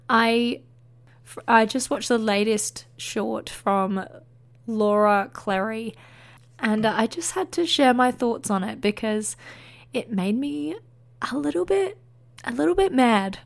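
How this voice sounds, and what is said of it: Hoarse, partly lost sick voice. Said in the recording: “as you can hear in my voice, I am still sick, and I have recently semi-lost my voice”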